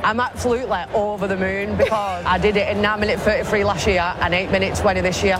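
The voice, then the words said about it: Wigan accent. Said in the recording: “She's from Wigan. ... You can tell she's from Wigan. ... I love that accent.”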